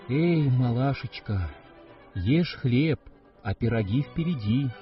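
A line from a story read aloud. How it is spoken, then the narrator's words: Plain. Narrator (Russian): сказала ей печь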